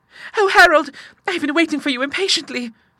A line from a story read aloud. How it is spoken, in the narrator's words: she cried